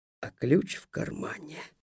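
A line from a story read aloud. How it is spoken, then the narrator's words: Whispered. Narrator (Russian): шепотом добавил я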